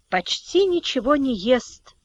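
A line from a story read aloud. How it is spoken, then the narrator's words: Quiet. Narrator (Russian): тихо говорила тетя Наташа Антону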